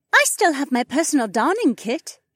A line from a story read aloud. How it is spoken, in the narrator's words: Shay piped up